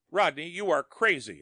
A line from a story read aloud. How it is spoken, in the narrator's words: cried aghast